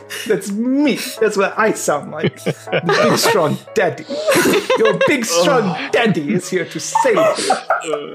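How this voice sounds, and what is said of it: Weird put-on character voice. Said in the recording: “Weird voice”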